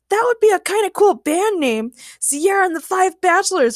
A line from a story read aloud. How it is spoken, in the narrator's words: Ray shouted